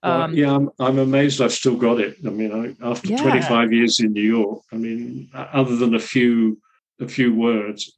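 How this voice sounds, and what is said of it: English accent. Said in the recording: “Love the English accent. Love the English accent.”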